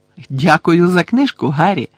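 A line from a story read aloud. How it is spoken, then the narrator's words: Joyful. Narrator (Ukrainian): радісно сказала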